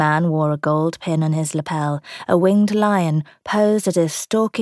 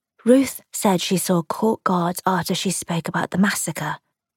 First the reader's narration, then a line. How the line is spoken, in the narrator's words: she whispered